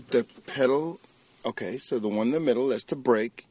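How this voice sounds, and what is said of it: Nervous, anxious-sounding voice. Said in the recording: “Why do you sound so nervous? ... You're super nervous.”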